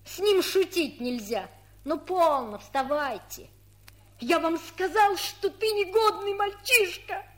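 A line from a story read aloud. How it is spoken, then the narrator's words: Spiteful scolding. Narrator (Russian): Злобно выговорила Иленька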